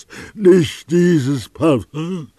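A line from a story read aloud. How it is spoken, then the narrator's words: Weak, exhausted cry. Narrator (German): rief er wie mit allerletzter Kraft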